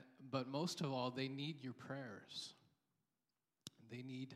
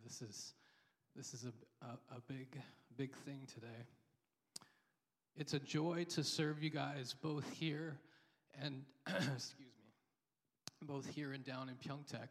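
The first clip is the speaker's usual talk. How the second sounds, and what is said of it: Emotional, choked-up voice. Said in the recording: “Sorry if I'm getting emotional today.”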